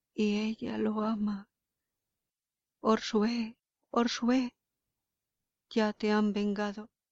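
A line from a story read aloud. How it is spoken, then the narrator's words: Old warrior murmuring, muffled. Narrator (Spanish): El viejo guerrero murmuró al ocultarse el rostro con las manos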